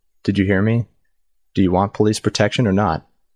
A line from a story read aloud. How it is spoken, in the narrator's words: Her voice sounded shaky